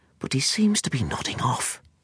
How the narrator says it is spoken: she whispered

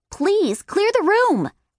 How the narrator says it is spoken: Wonder Woman yelled

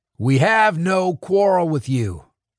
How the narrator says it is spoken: Mac yelled

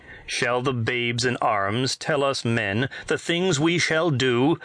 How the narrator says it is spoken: Masuk demanded in a loud voice

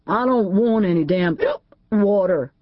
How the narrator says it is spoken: AJ stuttered

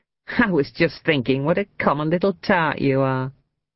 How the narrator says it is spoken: laughed

